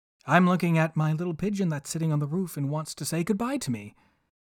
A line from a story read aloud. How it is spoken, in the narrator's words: Hansel answered